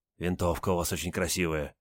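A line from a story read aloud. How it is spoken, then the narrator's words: Reverent whisper. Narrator (Russian): солдат благоговейно прошептал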